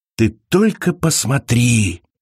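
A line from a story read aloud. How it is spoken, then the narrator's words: Whisper. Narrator (Russian): прошептала Элиза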